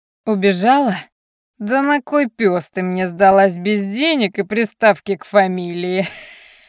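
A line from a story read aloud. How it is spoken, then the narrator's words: Nasty laugh. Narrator (Russian): Противно засмеялся Саймон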